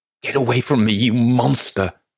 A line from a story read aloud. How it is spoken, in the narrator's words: She screeches